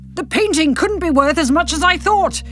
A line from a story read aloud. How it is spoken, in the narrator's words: Derek shouts